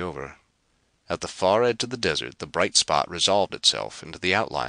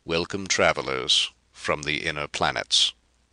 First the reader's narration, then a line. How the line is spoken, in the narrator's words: said the king